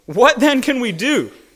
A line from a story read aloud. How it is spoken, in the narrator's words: They responded desperately